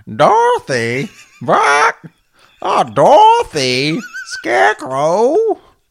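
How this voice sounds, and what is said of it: Talking chicken character voice. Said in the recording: “a killer Belina from Return to Oz impersonation... Dorothy the chicken from Return to Oz”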